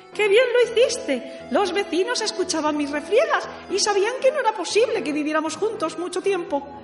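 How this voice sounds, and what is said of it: High-pitched squeaky character voice. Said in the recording (Spanish): “dijo Catalina con su voz de pito”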